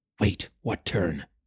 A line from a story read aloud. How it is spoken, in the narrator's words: Callum hissed